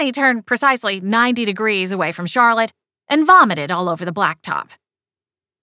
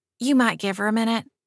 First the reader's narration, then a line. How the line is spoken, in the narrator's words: Charlotte whispered